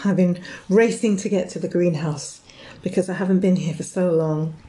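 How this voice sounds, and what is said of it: Breathless, out of breath speaking. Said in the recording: “Sorry, I'm out of breath.”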